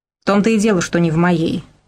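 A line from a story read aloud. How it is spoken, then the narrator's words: Said angrily. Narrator (Russian): зло сказал БЧ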